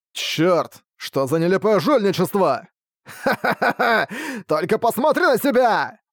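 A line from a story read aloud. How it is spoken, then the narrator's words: Arrogant laughter. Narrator (Russian): Андел рассмеялся с высокомерным видом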